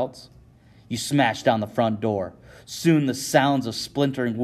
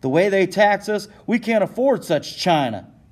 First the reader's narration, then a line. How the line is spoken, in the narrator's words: Shay hollers